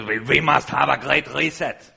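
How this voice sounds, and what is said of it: Imitates another person's voice. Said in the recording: “that's my Klaus Schwab impression.”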